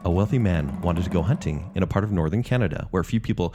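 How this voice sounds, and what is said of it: Creepy storytelling voice. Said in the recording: “Why do I do it with the creepy voice already?”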